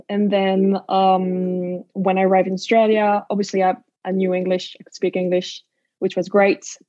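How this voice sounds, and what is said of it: French/Dutch accent in English. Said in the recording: “you can hear my accents ... a French/Dutch accent”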